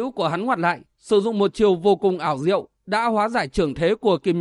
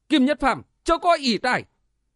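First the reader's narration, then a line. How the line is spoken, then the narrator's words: Loud shout. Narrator (Vietnamese): Triệu Tam hét to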